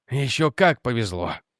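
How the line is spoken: Angry grumble. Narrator (Russian): сердито буркнул Реджи

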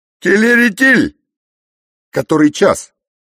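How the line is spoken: Loud shout. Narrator (Russian): поэт Еремин громко крикнул

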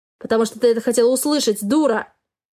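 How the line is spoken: Man shouting. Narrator (Russian): закричал мужчина

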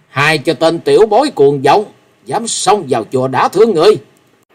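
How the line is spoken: Shout. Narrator (Vietnamese): Tiếng quát

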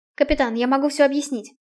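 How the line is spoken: Hurried. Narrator (Russian): торопливо заговорила Наэль

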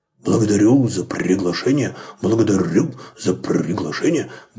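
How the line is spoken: Mumbled. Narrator (Russian): бормотал Максимилиан

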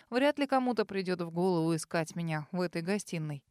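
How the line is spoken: Smirking. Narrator (Russian): хмыкнул он

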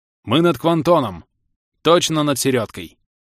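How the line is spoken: Commanding. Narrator (Russian): глава Неспов скомандовала

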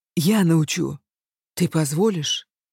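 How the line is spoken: Low hoarse voice. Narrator (Russian): Его голос был более низким и хриплым, чем обычно

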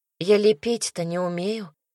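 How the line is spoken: Quiet reminder. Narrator (Russian): тихо напомнила

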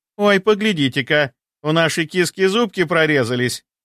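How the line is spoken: Merry laughter. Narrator (Russian): Весело рассмеялась Агаши

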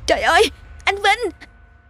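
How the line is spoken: Breathless horrified scream. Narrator (Vietnamese): Cô thét lên một tiếng, gần như không thể thở nổi khi nhìn thấy chồng mình nằm bất động trên nền sân gạch

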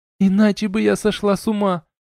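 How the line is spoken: Sobbing. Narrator (Russian): всхлипнула Арна

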